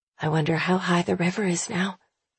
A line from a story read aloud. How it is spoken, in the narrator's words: she murmurs